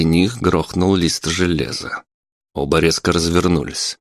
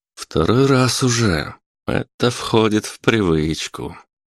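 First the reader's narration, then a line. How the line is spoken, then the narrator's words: Smiling. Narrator (Russian): улыбнулся Филимонов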